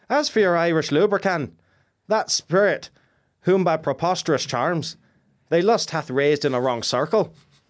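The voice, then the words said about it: Put-on Irish accent, self-described terrible. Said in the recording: “Shall I try my terrible Irish accent?”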